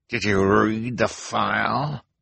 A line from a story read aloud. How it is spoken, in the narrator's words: she demanded in a terrible voice